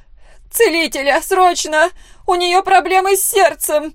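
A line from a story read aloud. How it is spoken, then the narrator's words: Loud scream, mother. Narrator (Russian): Ее мама громко закричала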